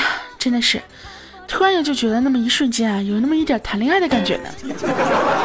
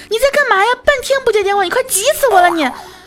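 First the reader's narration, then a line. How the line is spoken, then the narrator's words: Man shouting loudly. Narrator (Chinese): 外卖大哥直愣愣冲我大喊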